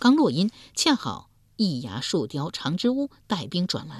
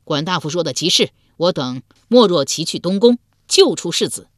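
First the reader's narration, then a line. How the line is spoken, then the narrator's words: Loud reply. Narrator (Chinese): 鲍叔牙之子鲍勇高声应道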